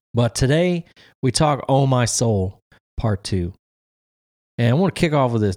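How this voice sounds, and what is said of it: Slightly raspy voice. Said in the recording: “it's allergy season and I'm just a little raspy, so it might be a little different than usual”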